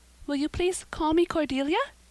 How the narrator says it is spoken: said eagerly

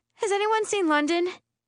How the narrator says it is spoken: I squeak

